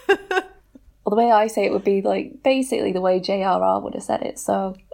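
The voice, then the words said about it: Non-American accent. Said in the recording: “accent at all that differs from an American accent.”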